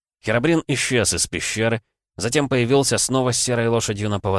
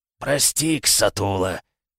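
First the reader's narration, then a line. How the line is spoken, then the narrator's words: Guilty growl. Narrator (Russian): виновато прорычал зомби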